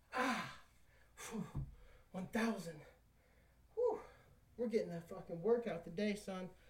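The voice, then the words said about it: Breathless, panting after exertion. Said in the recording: “Whew, I'm out of breath.”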